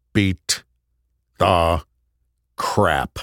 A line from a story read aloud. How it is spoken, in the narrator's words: Will growled